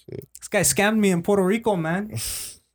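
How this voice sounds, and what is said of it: Put-on Spanish accent. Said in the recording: “I don't know if it sounds like that ... I just did an accent ... Whatever felt like it was Spanish at the time ... It felt Spanish.”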